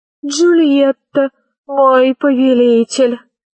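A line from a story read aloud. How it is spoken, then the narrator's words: Shy, slightly nasal reply. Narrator (Russian): ответила та, потупясь и чуть гнусавя из-за прищепки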